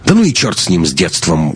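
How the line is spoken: Rough, curt. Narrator (Russian): грубо бросил Лекс

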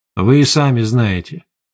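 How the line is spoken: Calm reply. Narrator (Russian): спокойно ответил один из пленников

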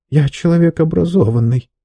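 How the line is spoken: Muttering. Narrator (Russian): пробормотал он

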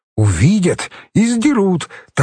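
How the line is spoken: Cheerful. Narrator (Russian): так же весело ответил Юра

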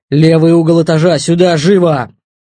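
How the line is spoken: Shouting over radio. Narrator (Russian): Иван ударил по тангете радиостанции и крикнул

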